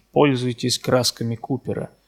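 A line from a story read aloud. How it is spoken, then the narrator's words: Plain. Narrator (Russian): сказал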